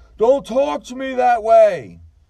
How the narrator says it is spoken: I heard Riddler screaming at Allier

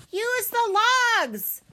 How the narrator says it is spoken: roaring

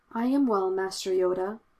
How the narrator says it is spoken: said, his voice just above a whisper

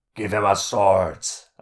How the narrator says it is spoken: a large Skurg growled

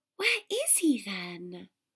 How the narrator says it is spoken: she whispered

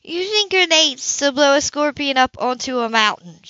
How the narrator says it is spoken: she exclaimed

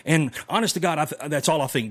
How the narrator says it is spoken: Biden stammered

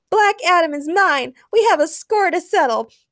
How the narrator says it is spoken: while shouting

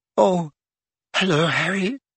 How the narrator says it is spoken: she said in a brittle voice

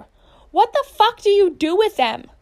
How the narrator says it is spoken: screams after her

